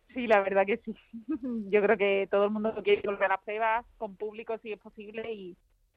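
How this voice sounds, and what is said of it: Andalusian Spanish accent from Huelva. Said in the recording (Spanish): “Tu acento te delata, eres de Huelva”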